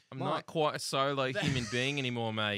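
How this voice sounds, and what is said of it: Put-on Australian accent. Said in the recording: “Y'all have a better Australian accent than she does.”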